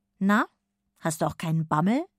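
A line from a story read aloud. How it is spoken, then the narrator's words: Plain question. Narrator (German): fragt Mama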